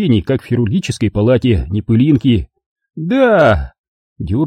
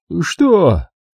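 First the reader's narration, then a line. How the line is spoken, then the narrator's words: Dejected mumble. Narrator (Russian): промямлила понурая спина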